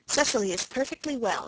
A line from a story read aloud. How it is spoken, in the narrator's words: said Aunt Janet sharply